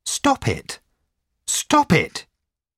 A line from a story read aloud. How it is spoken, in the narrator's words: cried